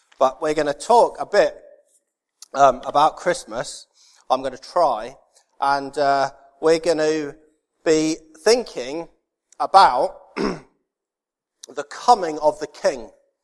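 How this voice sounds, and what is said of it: Voice affected by a cold. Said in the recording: “Anybody got a throat sweet? ... I've got a bit of a cold.”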